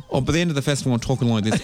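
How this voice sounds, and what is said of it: Put-on female Australian accent. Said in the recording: “I have to kind of adapt my accent down and down ... a female Australian accent comes more naturally to me than a male one”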